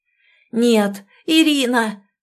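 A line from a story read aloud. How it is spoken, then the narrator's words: Hoarse shout. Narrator (Russian): закричал хрипло Александр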